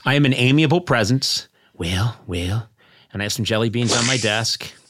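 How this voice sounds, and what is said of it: Imitates another person's voice. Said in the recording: “best Reagan impression”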